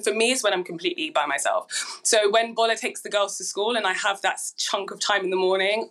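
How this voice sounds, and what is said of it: Hazy, slightly hoarse voice. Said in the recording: “my voice sounds a little bit hazy now um, because a few few days ago ... I put my head into this pillow and I screamed”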